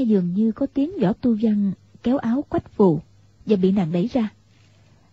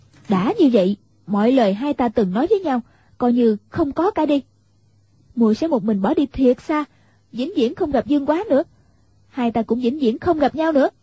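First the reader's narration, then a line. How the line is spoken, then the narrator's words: Raised, angry voice. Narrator (Vietnamese): Quách Phù nghe Võ Tu Văn nói như thế, liền cao giọng gắt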